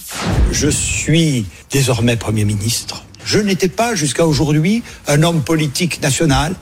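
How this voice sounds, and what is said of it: Marked regional French accent. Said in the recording (French): “a été moqué, brocardé tout le week-end sur les réseaux sociaux. Pourquoi? À cause de son accent.”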